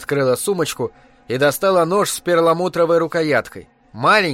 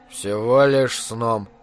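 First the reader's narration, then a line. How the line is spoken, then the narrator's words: Muffled mutter. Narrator (Russian): пробормотал мистер-бизнесмен в узел своего галстука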